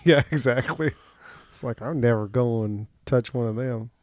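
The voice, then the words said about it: Exaggerated hillbilly country accent. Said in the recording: “I just turned into a terrible hillbilly country accent.”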